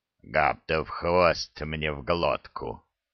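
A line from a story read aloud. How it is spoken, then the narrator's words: Stunned grumbling. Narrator (Russian): ошарашенно пробурчал Храд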